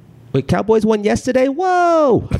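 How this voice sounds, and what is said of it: Aziz Ansari impression. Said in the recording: “I do a really good Aziz impression.”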